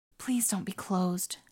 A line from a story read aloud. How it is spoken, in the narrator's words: she whispered over and over like a prayer